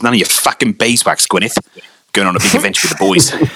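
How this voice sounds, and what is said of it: Imitated cartoon character's accent. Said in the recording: “I need to try and get the accent right.”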